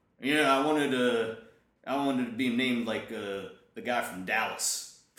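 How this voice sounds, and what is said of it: Dumb-sounding southern accent. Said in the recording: “Did he have a southern accent too, this guy? ... Yeah. ... He actually was a dumb guy with a southern accent.”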